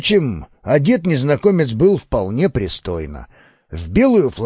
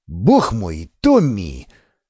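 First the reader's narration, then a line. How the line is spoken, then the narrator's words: Irritated outburst. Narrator (Russian): раздраженно вскинулся Ривас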